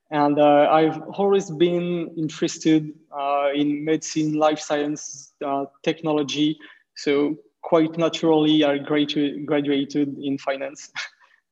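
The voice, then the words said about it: French accent speaking English. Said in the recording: “I'm French VC based in Paris. You can hear it in my accent when I talk.”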